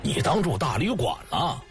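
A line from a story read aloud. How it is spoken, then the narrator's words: Stern harsh voice. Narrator (Chinese): 游天笑厉声说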